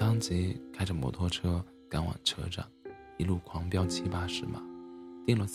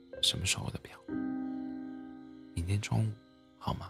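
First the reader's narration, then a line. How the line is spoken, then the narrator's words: Pleading. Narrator (Chinese): 他像在哀求我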